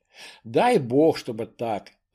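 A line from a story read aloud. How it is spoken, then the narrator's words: Sighing. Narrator (Russian): вздохнула графиня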